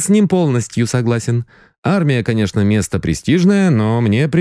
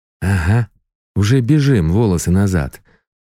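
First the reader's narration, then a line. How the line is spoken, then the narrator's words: Gruff mutter. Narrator (Russian): буркнул захребетник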